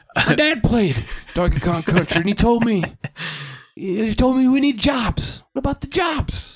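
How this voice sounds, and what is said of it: Imitates another person's voice. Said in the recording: “my limited Joe Biden impression ... Your Biden's talking about his dad sounded like, Biden mixed with Will Ferrell's Harry Carey a little bit”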